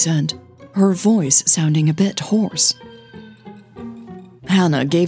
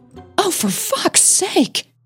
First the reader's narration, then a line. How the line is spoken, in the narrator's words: Millie cried out